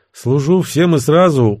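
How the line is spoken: Weary reply. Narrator (Russian): устало отозвался Гена

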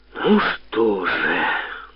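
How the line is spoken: Long drawn sigh. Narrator (Russian): вздохнул протяжно Комаров

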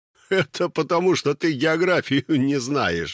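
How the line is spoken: Laughing. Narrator (Russian): засмеялся Юрасик

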